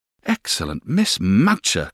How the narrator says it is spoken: cried

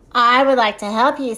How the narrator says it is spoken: said Old Giraffe

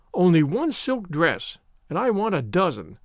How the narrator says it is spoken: Avery had said scornfully

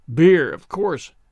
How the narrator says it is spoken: grumbled Jemima

